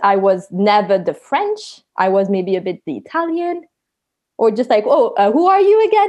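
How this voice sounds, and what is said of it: French accent. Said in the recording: “quite quickly you can hear my French accent, or even you're maybe hearing it now”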